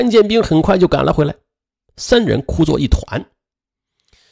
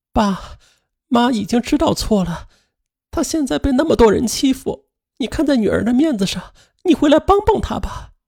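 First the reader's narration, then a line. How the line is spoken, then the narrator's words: Crying on the phone. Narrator (Chinese): 哭着给父亲打电话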